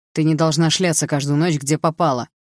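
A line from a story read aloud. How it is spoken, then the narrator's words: Barking snap. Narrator (Russian): рявкнул он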